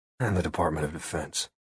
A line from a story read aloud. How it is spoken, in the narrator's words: he sighed and added